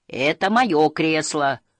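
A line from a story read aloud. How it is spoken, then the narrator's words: Huge creature shouting. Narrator (Russian): закричал огромный Хемуль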